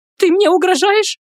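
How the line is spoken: Shrill squeal. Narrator (Russian): взвизгнула та

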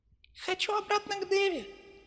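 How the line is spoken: Thin little voice, teddy bear. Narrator (Russian): произнес плюшевый Мишка тоненьким голоском

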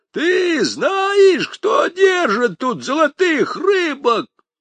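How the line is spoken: Old man yelling loudly. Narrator (Russian): Первый старик изо всей силы заорал

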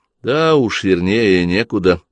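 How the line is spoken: Grim remark. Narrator (Russian): мрачно заметил Джордан

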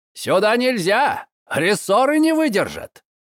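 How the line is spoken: Driver's shout. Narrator (Russian): крикнул возница

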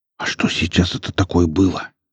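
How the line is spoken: Young man's whispered question. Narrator (Russian): шепотом спросил парень

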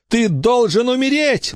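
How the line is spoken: Howling. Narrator (Russian): взвыл Билли

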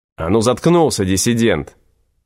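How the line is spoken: Snapping. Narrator (Russian): огрызнулся караульный

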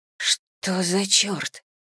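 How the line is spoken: Whisper. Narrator (Russian): прошептала

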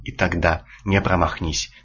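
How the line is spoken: Plain. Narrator (Russian): сказала проматерь

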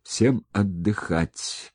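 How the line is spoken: Wheezing. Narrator (Russian): просипел он

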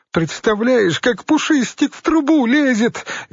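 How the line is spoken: Squealing with laughter. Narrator (Russian): визжала, катаясь по дивану

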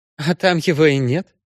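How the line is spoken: Snort. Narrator (Russian): фыркнула Валентина

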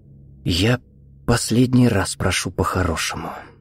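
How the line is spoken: Quiet. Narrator (Russian): тихо сказал Виктор

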